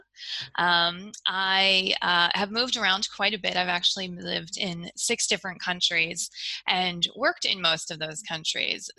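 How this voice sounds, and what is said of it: American accent. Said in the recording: “you can probably tell from my accent that I'm an American”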